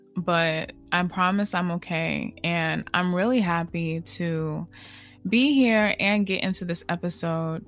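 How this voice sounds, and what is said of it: Subdued, low, down-sounding voice. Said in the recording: “my voice sounds, you know, more so down than usual.”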